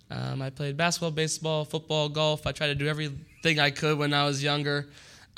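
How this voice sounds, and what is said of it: Slightly hoarse, worn-out voice. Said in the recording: “I'm losing my voice a little bit ... give me some slack if my voice gives out once in a while.”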